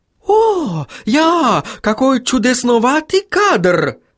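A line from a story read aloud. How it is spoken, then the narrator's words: Exclaiming. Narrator (Russian): воскликнул Отто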